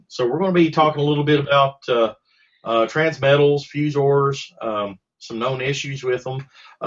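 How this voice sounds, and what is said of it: Voice not at full strength. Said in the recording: “my voice is not 100%... my voice is not 100% yet, but I'm getting better.”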